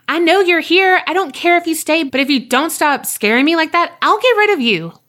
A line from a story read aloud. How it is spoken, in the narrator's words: I yelled out